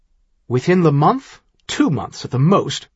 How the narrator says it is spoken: Maguire said harshly

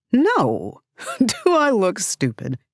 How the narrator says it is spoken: Giggling to annoyance in half a breath

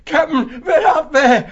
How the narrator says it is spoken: he said wildly

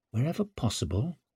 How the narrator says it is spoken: muttered Savine

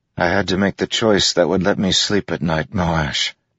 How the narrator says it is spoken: Caladan said wearily

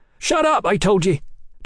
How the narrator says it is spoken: Tom cried

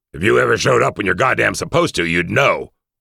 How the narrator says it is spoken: Weiss snapped back angrily

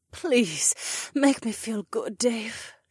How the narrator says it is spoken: she moaned

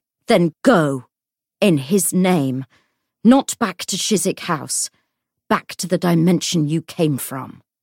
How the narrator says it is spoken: said savagely

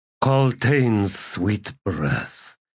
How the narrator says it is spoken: sighed

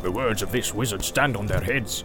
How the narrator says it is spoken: he growled

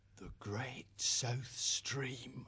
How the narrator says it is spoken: Spriggart whispered

